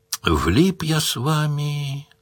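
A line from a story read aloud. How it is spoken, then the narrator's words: Sad. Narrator (Russian): грустно сказал Паколет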